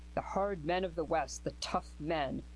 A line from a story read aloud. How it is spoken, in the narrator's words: he sneered at himself